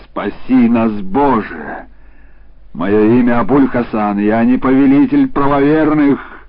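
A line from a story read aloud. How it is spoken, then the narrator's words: Shouted. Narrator (Russian): закричал Абуль-Хасан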